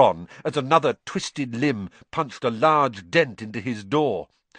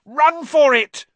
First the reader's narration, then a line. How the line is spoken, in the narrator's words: Ron shouted